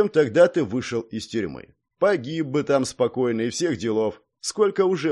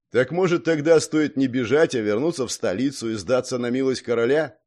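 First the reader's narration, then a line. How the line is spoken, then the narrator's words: Mocking. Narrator (Russian): насмешливо произнес Гордей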